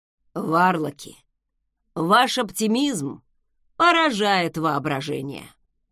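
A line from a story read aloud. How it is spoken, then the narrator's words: Muffled grumble into pillow. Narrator (Russian): проворчал Закари, зарываясь головой в подушку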